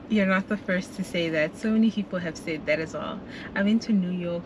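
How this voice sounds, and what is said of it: South African accent, sounds British. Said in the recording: “You have the same funny, it's like a UK accent. ... British English from ... South Africa. ... are you from the UK? And I'm like, no, ... South Africa.”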